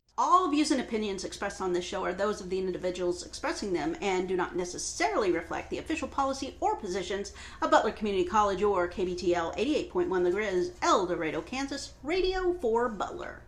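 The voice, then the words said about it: Polished radio announcer voice. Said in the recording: “Don't you like my radio voice? ... Yeah, you do have a good ... That's my radio voice.”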